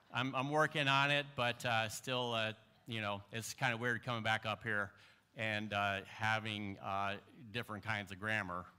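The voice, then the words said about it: Tennessee Southern accent. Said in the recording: “That's my Tennessee accent.”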